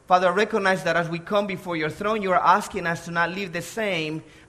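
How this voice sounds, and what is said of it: Salvadoran accent in English. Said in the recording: “I was born in El Salvador. That's where the accent comes from.”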